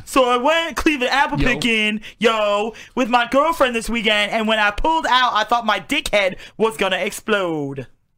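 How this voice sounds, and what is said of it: Exaggerated bro voice. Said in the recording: “do it in a bro voice?”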